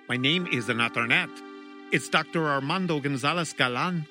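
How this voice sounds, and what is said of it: Put-on Latin American accent. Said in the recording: “in what I suppose is a Latin American accent ... a Spanish accent”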